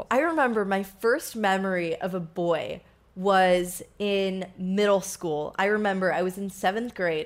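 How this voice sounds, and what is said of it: Speaks with a lingering accent. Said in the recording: “I'm still on my accent from last week. How crazy is that? It's terrible.”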